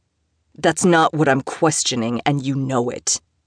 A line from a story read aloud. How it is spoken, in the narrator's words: Theodore snapped back